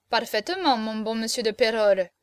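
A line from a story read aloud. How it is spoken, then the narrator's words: Plain. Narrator (French): répondit Cocardas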